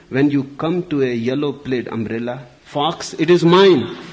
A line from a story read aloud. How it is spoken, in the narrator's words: Putting his mouth to the keyhole, he shouted